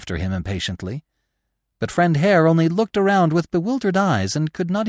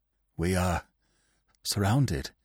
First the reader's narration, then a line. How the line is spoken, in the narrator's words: he said in a lifeless voice